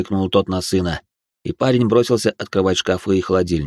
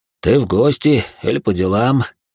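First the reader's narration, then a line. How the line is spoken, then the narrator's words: Sad question. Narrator (Russian): печально спросил он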